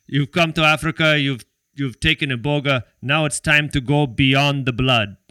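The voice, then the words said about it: Put-on African accent. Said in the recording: “in like an African accent, but in English ... I'm probably butchering the accent”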